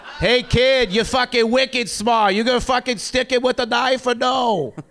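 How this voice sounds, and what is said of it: Put-on Boston accent. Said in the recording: “it's a Boston ... Accent”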